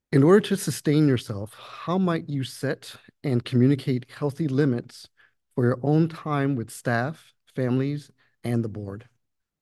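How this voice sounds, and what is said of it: Slightly hoarse voice. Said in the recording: “Excuse my voice, guys. I've been talking all day, so I'm a little hoarse.”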